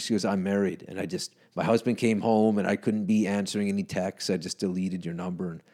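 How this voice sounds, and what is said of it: Speaker with a noticeable accent. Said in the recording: “you have an accent ... at least you have an accent”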